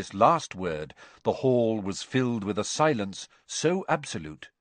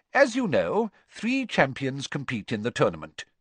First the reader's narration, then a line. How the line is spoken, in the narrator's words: Dumbledore went on calmly